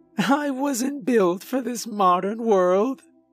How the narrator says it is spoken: she cried

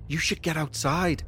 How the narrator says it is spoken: whispered back

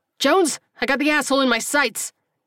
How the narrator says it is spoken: the injured man yelled

